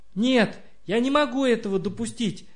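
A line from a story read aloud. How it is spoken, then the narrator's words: Girl shouting. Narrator (Russian): закричала Катя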